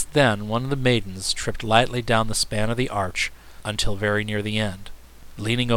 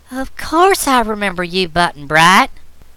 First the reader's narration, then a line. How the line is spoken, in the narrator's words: replied the maiden in a sweet, tinkling voice